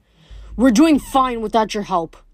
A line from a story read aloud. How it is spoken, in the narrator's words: Luke growled